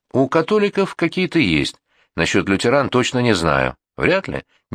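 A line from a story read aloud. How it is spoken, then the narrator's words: Uncertain reply. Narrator (Russian): неуверенно ответил Ордин Нащекин-младший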